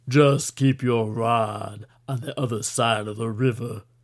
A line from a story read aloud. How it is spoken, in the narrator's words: Deuce growled into Kaufman's ear